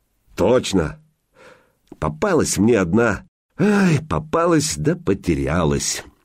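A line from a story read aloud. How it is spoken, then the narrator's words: Wistful sigh. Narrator (Russian): Илья вздохнул, вспоминая жерку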